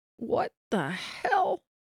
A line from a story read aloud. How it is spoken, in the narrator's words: Miguel finally stammered out